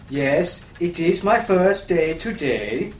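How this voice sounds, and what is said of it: Fake Norwegian accent. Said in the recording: “Oh, you're foreign. ... You've got a lovely accent. ... It's Norwegian. ... I am fake Norwegian. ... Oh. Well, it's very convincing.”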